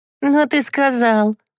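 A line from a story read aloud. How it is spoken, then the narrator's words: Laughing. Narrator (Russian): засмеялась Катюша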